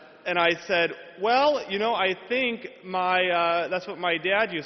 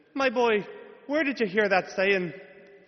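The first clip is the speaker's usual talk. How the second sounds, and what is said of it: Put-on Irish accent. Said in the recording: “He was from Ireland. That's the best I can do. Lucky Charms accent.”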